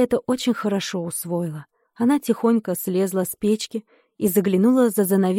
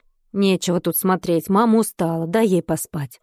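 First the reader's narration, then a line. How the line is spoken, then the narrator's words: Softened stern reply. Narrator (Russian): ответила уже не таким грозным тоном бабушка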